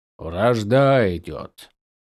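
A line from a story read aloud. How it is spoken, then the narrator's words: Quiet. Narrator (Russian): тихо сказал Уапам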